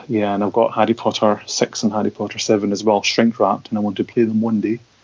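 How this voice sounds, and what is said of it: Speaks with a noticeable accent. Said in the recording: “with your accent, when you say I got Harry Potter 6, I'm thinking of something very different.”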